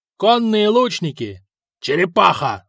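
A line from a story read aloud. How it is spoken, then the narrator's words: Yelling. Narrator (Russian): заорал Хакон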